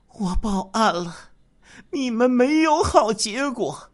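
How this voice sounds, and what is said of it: Weak, faint voice. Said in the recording (Chinese): “用微弱的声音说”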